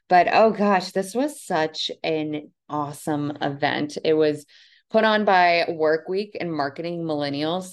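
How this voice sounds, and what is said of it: Hoarse, strained voice. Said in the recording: “I'm sure you can tell by my voice, it's kind of gone from all of the socializing and networking”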